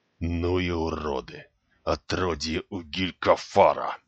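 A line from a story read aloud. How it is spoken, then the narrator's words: Quiet muttering. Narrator (Russian): негромко забормотал боец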